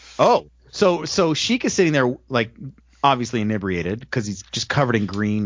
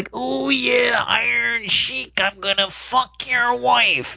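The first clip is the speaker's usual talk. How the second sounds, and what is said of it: Poor Randy Savage impression. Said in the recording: “It's not even a good impersonation of Randy Savage.”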